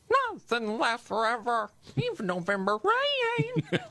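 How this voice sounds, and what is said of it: Sung imitation of another singer's voice. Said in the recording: “the Dave Matthews impersonation ... how would Dave Matthews sing November Rain? ... Not bad.”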